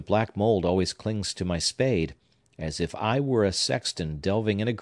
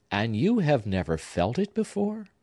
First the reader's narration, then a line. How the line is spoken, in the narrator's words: inquired the artist